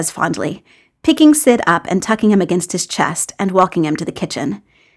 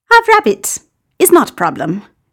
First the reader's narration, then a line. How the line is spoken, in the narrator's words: Gino responds cheerfully